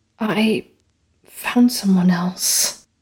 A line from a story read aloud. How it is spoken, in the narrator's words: she admitted, her voice raspy and raw